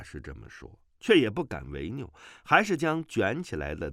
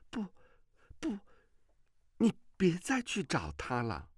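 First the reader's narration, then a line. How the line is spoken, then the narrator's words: Shocked, trembling voice. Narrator (Chinese): 阮星竹脸色大变，颤声地说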